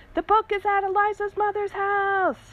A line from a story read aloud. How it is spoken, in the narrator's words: yelled it again, just because she liked being allowed to yell